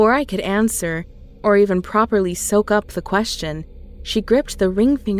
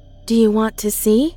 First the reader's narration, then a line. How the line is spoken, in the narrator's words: she asked, her voice dripping